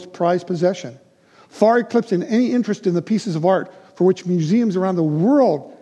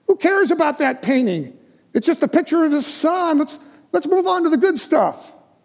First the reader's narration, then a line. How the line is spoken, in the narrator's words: from the far back reaches, someone yelled